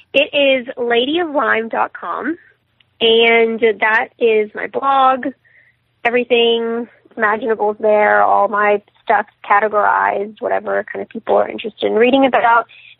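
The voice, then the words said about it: Strained, fading voice. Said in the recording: “losing my voice here, sorry.”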